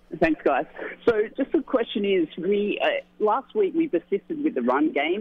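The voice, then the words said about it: Australian accent. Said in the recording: “I love the accent”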